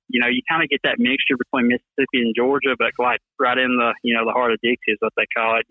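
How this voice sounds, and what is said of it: Thick Southern Alabama accent. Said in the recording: “that thick accent ... you Bama boys, yeah, man, y'all got a different language down there”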